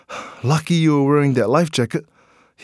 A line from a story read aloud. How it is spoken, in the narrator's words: he panted